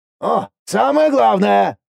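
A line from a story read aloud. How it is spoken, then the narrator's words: Startlingly loud exclamation. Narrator (Russian): воскликнул так громко, что я даже вздрогнул от неожиданности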